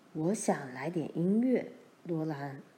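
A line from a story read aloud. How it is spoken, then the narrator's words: Soft voice. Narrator (Chinese): 爸轻声说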